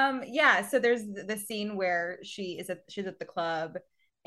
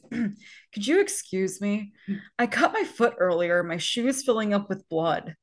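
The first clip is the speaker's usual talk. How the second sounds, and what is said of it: Imitates a film character's voice. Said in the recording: “great Romeo impression ... It's spot on.”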